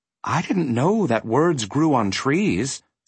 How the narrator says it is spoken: said Milo timidly

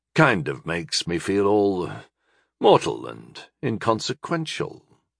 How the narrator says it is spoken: Talamon muttered

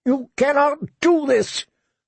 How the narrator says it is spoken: the prisoner shouted at their retreating backs

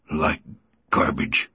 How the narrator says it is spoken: repeated through clenched teeth

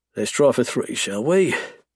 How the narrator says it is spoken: I murmur

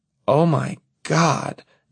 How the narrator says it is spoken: Evelyn exclaims, now truly alarmed

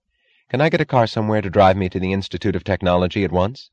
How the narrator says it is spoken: she asked

